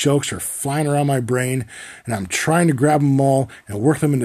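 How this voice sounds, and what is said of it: Usual voice. Nothing is said of it.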